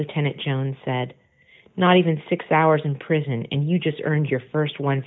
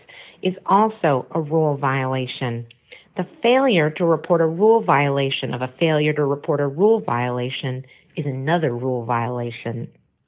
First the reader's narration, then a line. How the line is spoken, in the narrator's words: Conan said in a nasal voice